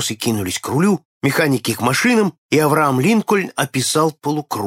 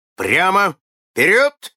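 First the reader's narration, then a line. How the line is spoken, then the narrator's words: Shouting. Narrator (Russian): крикнул Фаррагут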